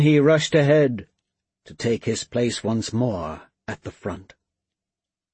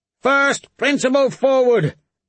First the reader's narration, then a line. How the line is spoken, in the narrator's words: as he shouted